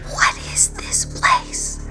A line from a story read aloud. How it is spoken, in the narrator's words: whispered Mimic Fina